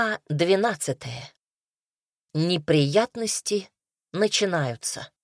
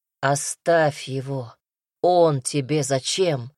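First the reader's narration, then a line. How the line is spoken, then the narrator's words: Weary rumble. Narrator (Russian): Устало пророкотал Казимир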